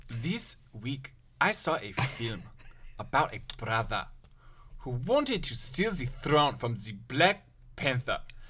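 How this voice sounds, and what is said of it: Put-on accent. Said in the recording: “can I do an accent?”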